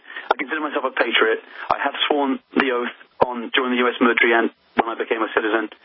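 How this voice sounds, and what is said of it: British accent. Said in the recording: “despite the accent, I am a U.S. citizen ... You were born and raised in the UK”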